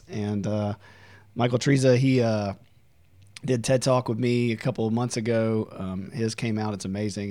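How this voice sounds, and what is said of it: Hoarse voice. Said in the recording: “I'm a little hoarse today”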